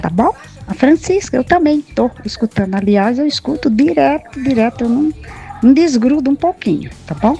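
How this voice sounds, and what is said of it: Pleasant regional accent. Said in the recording (Portuguese): “Ela tem um sotaque tão gostoso”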